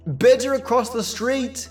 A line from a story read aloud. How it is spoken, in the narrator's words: I called out